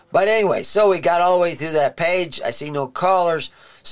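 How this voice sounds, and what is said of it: Voice worn, fading hoarse. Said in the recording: “losing my voice”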